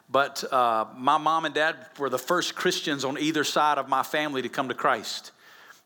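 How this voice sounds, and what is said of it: Alabama Southern US accent. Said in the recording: “I'm originally from Alabama. You can tell by my accent”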